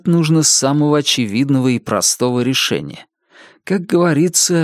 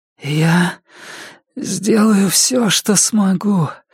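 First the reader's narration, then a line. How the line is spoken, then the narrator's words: Rasping. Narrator (Russian): прохрипела Джесси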